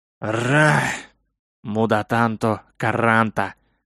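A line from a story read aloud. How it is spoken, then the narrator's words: Pleased unintelligible mutter. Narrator (Russian): Непонятно для меня пробормотал мужик, с наслаждением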